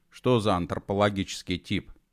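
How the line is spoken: Gloomy question. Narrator (Russian): мрачно спросил Митя

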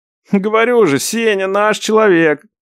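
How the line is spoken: Laughing brother. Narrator (Russian): засмеялся брат

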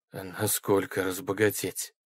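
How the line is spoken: Hoarse grating voice. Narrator (Russian): проскрежетал хрипло

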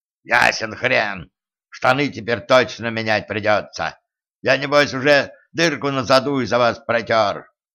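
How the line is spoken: Ferocious gnome's growl. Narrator (Russian): свирепо прорычал гном

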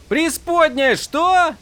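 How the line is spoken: Shouting. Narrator (Russian): закричал Адалин

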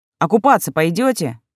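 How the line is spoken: Shouting after them. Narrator (Russian): Сева вслед им крикнул

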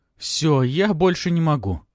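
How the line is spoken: Moaning. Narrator (Russian): простонала она

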